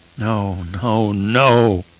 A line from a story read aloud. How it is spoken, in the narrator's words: moaned deep in his throat